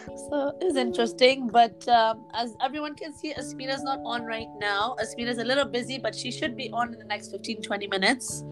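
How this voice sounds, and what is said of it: Hoarse, nearly lost voice. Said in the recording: “It's literally just my throat, like my voice is gone. So this is like a new ... for today”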